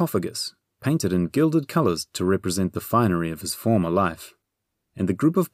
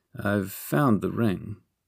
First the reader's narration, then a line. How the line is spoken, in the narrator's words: Dipple muttered to Bernie